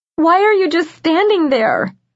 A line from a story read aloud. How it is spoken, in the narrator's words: Lizzie wailed